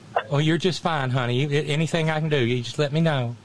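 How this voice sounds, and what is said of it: Thick Southern US accent. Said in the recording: “I was so far into my gooey Southern accent, it was bad... It wasn't put on... I grew up with that accent”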